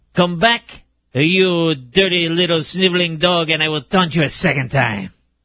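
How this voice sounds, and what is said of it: Mock French accent. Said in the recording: “Florida spiny lobsters do not have a French accent ... they do have a French accent in my dreams”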